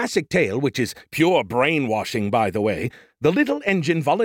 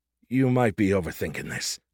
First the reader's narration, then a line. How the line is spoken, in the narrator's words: I muttered